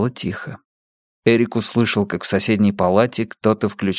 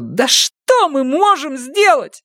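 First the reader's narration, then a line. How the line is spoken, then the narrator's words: Shouting. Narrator (Russian): закричала она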